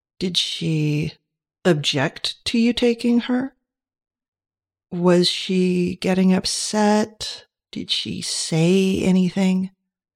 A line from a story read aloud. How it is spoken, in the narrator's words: He asked the questions slowly